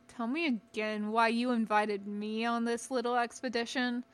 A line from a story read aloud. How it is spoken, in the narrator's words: Garen Mulne grumbled